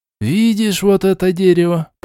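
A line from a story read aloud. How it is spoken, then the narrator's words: Grumbling. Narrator (Russian): проворчал Шичерун, делая вид, что сомневается в возможностях призванного слуги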